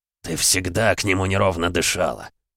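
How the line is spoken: Growled. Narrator (Russian): прорычал Эмма

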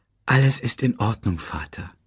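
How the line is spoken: Gentle. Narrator (German): sagte Simba sanft

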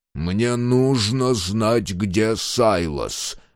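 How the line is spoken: Growling. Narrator (Russian): прорычал Мюррей

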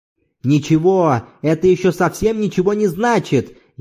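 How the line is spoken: Furious shout. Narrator (Russian): яростно закричал Зорбас

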